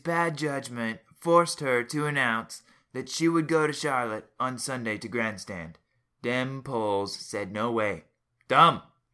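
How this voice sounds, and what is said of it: Imitates another person's voice. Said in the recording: “my Trump impersonation ... I thought it was pretty dang good”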